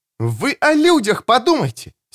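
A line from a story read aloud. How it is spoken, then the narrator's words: Angry exclamation. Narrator (Russian): сердито воскликнула Кэтрин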